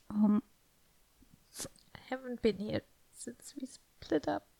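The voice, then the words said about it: Emotional, choked-up voice. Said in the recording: “Getting a little emotional here.”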